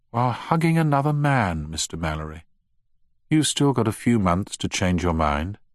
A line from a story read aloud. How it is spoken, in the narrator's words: added wistfully